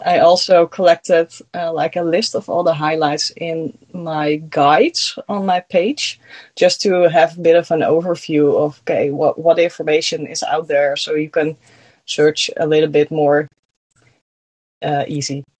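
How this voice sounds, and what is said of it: Slight Dutch accent. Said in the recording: “you have a very small accent ... I'm from the Netherlands. That's why I have an”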